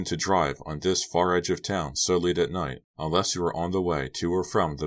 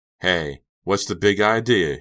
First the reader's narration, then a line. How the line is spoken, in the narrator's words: he shouted out the window